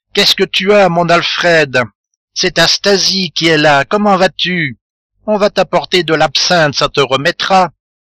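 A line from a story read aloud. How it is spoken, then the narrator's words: Shouted into ear. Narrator (French): elle lui cria à l'oreille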